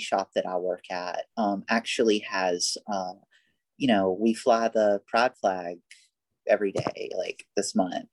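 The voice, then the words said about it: Alabama Southern accent. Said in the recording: “people still comment on my accent, you know, and I give the whole like, oh yeah, I'm from Alabama shtick”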